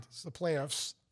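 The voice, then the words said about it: Strange put-on accent. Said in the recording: “I'm saying it with a strange accent.”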